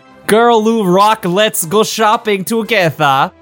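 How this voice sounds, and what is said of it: Vague put-on accent. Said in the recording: “that's easier for me to read if I do it in some indeterminate accent”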